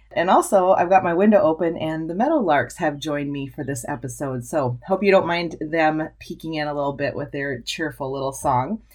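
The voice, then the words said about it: Husky morning voice. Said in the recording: “I got up super early this morning ... you can hear it in my voice. I'm one of those husky-voiced people in the morning”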